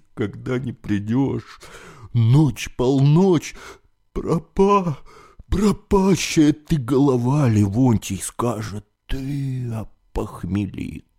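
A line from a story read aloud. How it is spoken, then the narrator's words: Sobbing uncontrollably. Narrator (Russian): совсем уж разрыдавшись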